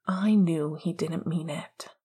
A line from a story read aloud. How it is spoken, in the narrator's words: Sirius said with a long sigh